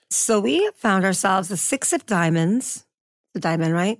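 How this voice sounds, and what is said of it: Calm public-radio announcer voice. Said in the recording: “You have a very NPR voice right now.”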